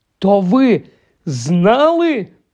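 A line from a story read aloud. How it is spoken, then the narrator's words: Exclaimed. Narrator (Ukrainian): вигукнув Гаррі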